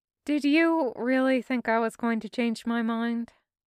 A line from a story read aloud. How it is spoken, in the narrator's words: Garrick sighed